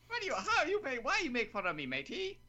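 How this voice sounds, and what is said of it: Attempted Irish accent sounding Canadian. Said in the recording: “Is sounding oddly Canadian right there... My Irish accent sounds Canadian... I thought you were a pirate... It's a Canadian pirate.”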